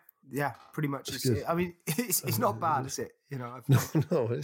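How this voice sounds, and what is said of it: Usual voice. Nothing is said of it.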